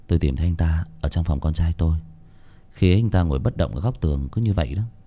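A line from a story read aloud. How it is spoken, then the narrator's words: Sighing. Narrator (Vietnamese): thở dài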